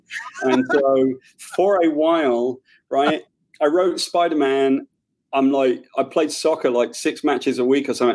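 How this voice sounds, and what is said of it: British accent. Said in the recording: “I've got a British accent.”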